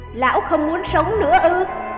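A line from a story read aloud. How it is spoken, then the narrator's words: Middle-aged man shouting. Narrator (Vietnamese): trung niên nam tử quát lớn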